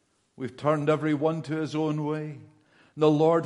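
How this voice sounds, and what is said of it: Usual voice. Nothing is said of it.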